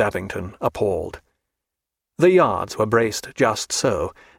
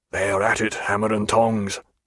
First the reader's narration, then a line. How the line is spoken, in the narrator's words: said Jack in a low, private voice